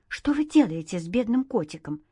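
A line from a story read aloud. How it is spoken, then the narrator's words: Excited woman's question. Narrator (Russian): взволнованно спросила женщина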